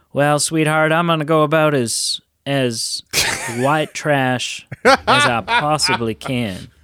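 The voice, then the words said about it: Put-on accent imitating film character. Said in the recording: “I'm doing a better accent ... the accent I'm doing here is is too good to accurately portray the film”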